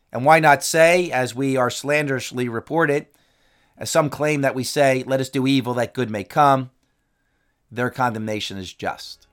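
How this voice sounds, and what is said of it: Strained, fading voice. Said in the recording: “I'm losing my voice this week”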